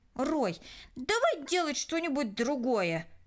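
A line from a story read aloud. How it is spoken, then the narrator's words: Irritated. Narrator (Russian): раздраженно произнесла Кристина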